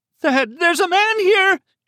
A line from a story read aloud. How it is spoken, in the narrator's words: she screamed into the telephone